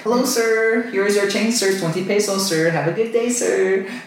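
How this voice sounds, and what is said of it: Imitated Filipino English accent. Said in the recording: “Their accents are really good. It's funny.”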